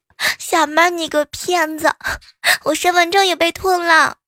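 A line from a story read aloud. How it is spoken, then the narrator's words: Tearful, over the phone. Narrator (Chinese): 他呢哭盈盈的打电话给我说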